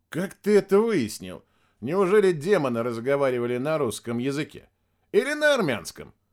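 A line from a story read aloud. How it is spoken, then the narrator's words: Laughing. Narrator (Russian): Матевосян рассмеялся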